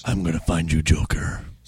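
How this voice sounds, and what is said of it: Batman voice impression. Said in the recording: “the Batman voice ... That was a good impression.”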